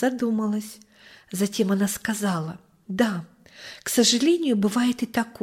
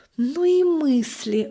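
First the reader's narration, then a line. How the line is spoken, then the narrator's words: Sighing. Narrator (Russian): вздохнула мама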